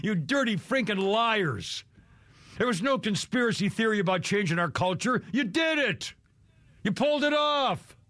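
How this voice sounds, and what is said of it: Angry yelling. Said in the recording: “I got to stop yelling ... I'm a little worked up today”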